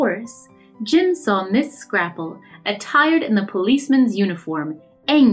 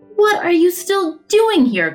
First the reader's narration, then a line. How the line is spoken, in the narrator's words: cried the vet angrily